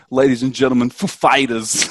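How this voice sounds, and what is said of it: Christopher Walken impression. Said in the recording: “That's a terrible Christopher Walken. ... That was pretty good. I think that's a pretty good Walken impression.”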